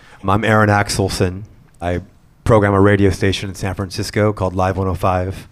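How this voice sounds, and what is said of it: Congested, sick-sounding voice. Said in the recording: “sorry I have a cold.”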